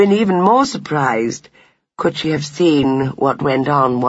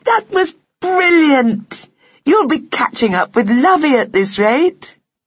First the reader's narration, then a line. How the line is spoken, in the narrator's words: she cried